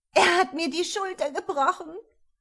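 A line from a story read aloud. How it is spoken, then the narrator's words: Woman whimpering in pain. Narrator (German): Mit schmerzverzerrtem Gesicht das Weib wimmernd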